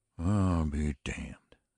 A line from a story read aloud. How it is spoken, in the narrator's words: said Brocky Lane weakly, and then more weakly still in a voice which broke despite a manful effort to make it both steady and careless